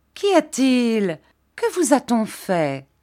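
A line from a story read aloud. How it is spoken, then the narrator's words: Exclaiming. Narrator (French): s'écria Miss Mills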